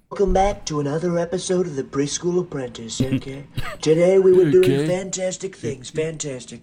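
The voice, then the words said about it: Imitates another person's voice. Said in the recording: “impersonating Trump, or actually lip syncing someone impersonating Trump”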